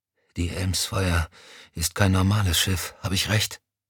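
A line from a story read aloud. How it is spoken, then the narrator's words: Exhausted whisper. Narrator (German): Erschöpft flüsterte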